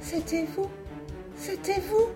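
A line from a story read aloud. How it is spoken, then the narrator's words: Halting broken female voice. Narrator (French): articula-t-elle enfin d'une voix entrecoupée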